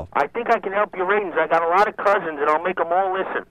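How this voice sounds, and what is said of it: New York accent. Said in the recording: “your accent is really annoying ... Los Angelinos don't like the New York accent”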